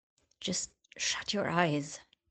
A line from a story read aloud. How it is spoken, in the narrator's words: hissed